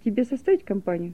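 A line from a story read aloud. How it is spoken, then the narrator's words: Plain. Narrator (Russian): спросил он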